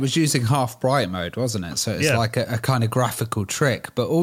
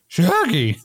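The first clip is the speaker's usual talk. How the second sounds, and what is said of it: Scooby-Doo cartoon character voice. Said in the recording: “my impression ... Scooby-Doo impression”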